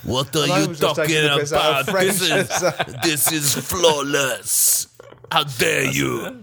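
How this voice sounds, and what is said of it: Poor French accent, sounds Jamaican. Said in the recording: “does not know what a French accent sounds like ... That's Jamaican.”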